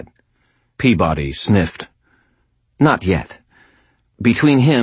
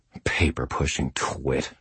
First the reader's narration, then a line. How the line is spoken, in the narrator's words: I muttered under my breath